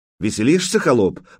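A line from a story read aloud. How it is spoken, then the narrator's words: Sharp curt remark. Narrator (Russian): бросил он резко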